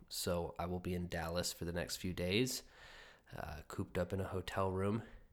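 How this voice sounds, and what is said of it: Strained, fading voice. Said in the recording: “I'm losing my voice a little bit”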